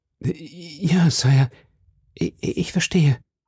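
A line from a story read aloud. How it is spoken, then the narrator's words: Queen stammering. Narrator (German): stammelte die Königin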